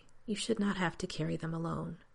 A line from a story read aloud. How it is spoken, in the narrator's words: Raddick replies quietly